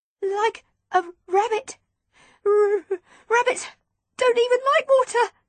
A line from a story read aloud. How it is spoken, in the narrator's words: I stuttered, my teeth beginning to chatter again